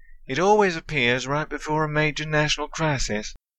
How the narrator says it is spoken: Leland sighed

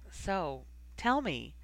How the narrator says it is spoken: Ginny attempted, almost evenly, but perhaps because neither of them had broken eye contact yet, her voice broke and trailed away

